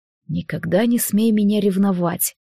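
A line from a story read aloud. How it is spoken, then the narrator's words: Quiet. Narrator (Russian): тихо сказал Алекс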